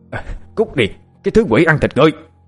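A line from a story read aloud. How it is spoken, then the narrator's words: Furious shout. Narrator (Vietnamese): Có một kẻ nào đó điên lên, hắn cầm một viên đá to chọi về phía cô mà hét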